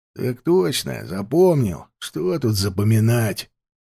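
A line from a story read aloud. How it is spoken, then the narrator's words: Grumbling old man. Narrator (Russian): проворчал пожилой капрал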